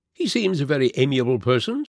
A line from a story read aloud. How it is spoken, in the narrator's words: said Holmes, laughing